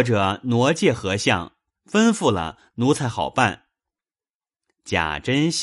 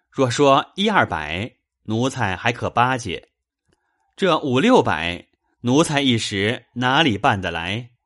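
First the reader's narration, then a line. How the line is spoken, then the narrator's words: Laughing reply. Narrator (Chinese): 余禄笑回道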